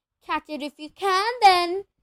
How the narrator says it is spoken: he shouted

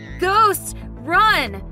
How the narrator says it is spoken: My brother shouted in panic

